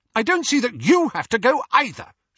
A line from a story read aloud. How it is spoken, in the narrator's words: snapped, dropping all pretense now